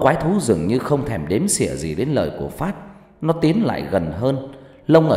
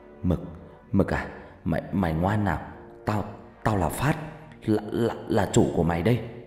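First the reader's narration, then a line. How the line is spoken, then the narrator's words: Trembling voice. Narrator (Vietnamese): Phát giọng run run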